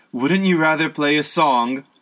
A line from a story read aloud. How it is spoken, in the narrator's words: called out his voice weary